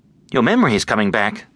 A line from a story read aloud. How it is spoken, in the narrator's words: said Amy urgently